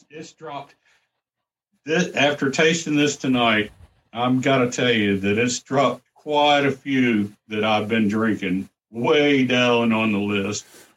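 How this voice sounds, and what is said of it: Smooth sultry ladies' man character voice. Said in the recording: “you're doing a really good job of an impersonation of a Saturday Night Live skit of the ladies man ... your bedroom drinking prowess”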